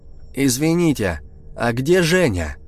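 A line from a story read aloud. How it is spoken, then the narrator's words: Loud question. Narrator (Russian): громко спросил я, помня, что старик глуховат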